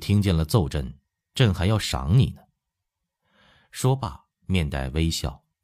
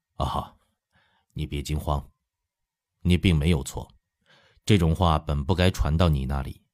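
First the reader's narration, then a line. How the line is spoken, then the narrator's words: Abrupt, then laughing. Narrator (Chinese): 因心里震惊，说话的突兀，乾隆一笑说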